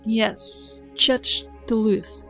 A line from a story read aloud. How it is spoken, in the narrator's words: she repeated slowly, trying to pronounce it exactly as Catan had